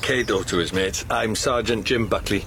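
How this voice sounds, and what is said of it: Welsh accent. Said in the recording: “Where's that accent from then? You a pom? ... Wales, my girl. God's own country.”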